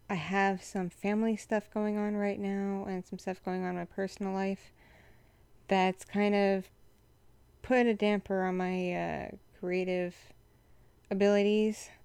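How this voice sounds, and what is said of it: Froggy, congested voice. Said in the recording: “as you can tell, my voice is still kind of froggy ... my voice is all froggy due to being like full of mucus”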